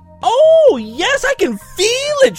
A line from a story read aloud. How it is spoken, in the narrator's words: she says excitedly